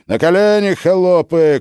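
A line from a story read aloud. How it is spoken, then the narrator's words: Shouting guards. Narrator (Russian): кричали опричники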